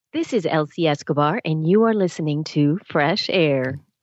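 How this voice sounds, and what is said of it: NPR radio announcer voice. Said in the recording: “Put on your best NPR voice”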